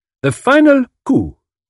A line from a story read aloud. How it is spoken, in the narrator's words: said dramatically